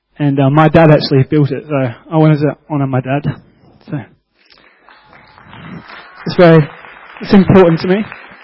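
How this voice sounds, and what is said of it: Emotional, near tears. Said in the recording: “getting emotional... I cry heaps”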